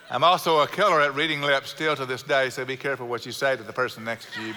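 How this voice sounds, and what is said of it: South Houston Texas accent. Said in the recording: “I sound like someone from South Houston, y'all. I got her accent. My parents have perfect Midwestern accents, and I do not.”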